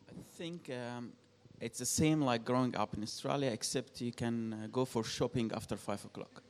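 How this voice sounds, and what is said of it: Egyptian-accented English. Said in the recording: “you probably have picked up on an accent ... and ... are from Egypt”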